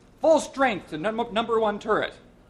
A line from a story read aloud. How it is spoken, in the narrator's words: shouted the commander